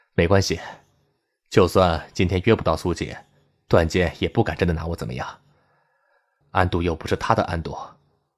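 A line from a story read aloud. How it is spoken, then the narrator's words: Resigned, forced smile. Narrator (Chinese): 连城无奈的 他勉强笑了笑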